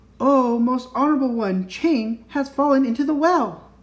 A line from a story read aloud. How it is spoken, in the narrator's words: Then Tikki Tikki Tembo No Sa Rembo Cherry Berry Richipip Perry Pembo raised his voice and cried